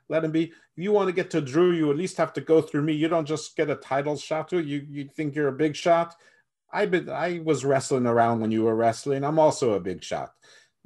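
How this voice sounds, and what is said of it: Poorly done put-on accent. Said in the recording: “that's a horrible accent”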